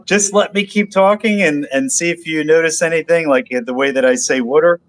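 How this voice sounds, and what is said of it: Philadelphia accent. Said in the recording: “what is this accent? I can't nail it down. ... Mike is a big Philly boy ... water. My dad's from Philly, so I caught that a little bit”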